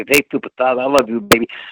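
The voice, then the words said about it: Imitated voice with put-on lisp. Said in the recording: “when Dusty talks with a lisp, he doesn't really have a lisp in real life. He puts that on ... That's how he talks in his Dusty Rhodes voice.”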